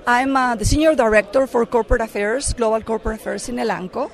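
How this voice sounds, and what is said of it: Mexican accent in English. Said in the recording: “I'm originally from Mexico, that's why I have an accent.”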